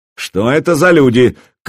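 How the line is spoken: Shouted from doorway. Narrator (Russian): крикнул он прямо с порога

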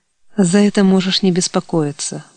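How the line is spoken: Sighing. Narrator (Russian): вздохнул Илья

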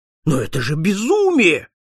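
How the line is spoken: Exclaiming. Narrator (Russian): воскликнул посетитель

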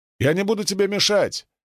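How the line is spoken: Shouted after someone. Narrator (Russian): крикнул я ему вслед

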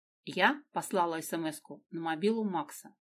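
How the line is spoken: Icy voice. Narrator (Russian): ледяным голосом сказала Дина

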